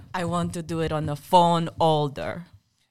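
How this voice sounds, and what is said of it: Deliberately awful put-on accent. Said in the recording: “I'm going to try and do an accent. It's going to be awful.”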